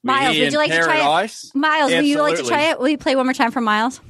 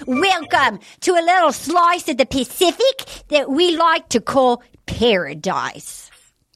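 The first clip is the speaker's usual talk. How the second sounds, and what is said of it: Attempted Australian accent. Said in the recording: “every time we try to do Australian accents, let's give it a go”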